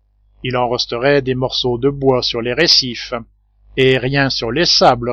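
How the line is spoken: Plain. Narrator (French): répondit le marin

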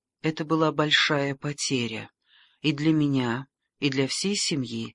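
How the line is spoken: Calm reply. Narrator (Russian): спокойно ответила леди Пол

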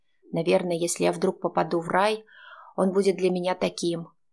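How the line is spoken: Snort. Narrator (Russian): хмыкнул Витя

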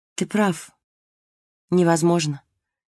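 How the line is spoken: Gentle. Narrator (Russian): мягко сказала Марго

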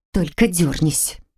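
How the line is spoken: Through clenched teeth. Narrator (Russian): процедила я, не разжимая зубов

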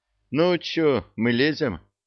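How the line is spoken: Sigh. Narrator (Russian): Простаков вздохнул

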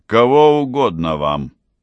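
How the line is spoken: Indifferent, calm doorman tone. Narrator (Russian): спросил он тем равнодушно спокойным тоном, который свойственен привратникам

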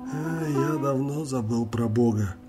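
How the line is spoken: Sad sigh. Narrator (Russian): опечаленно вздохнул путешественник

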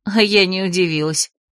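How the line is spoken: Bitter snort. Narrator (Russian): горько хмыкнула

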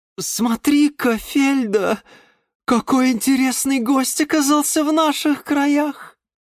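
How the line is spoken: Sweet sing-song angelic voice. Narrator (Russian): пропела царица ночи ангельским голосом

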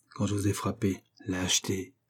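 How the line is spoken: Murmured. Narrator (French): murmura Dolci

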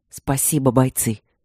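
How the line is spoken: Quiet muffled thanks. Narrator (Russian): тихо поблагодарил голос за стеной

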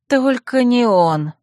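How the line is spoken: Moaning. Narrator (Russian): простонала я

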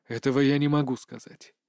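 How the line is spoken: Quiet. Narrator (Russian): тихо произносит мужчина

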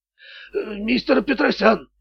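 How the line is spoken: Strained, forced out. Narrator (Russian): выдавил Громила

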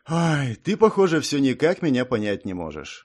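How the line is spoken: Sighing. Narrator (Russian): вздохнул

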